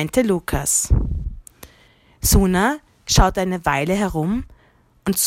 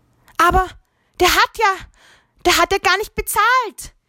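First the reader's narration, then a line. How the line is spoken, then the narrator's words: Exclaiming. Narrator (German): rief Suna aus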